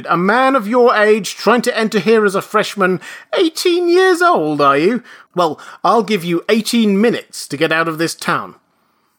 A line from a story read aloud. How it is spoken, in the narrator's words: he shouted